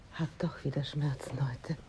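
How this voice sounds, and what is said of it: Whispering. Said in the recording (German): “Was flüsterst du denn?”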